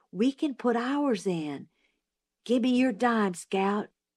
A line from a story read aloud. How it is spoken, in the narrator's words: Jim whispered